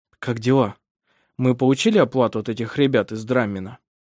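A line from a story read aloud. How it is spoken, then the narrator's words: Plain question. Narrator (Russian): спросил Вемунд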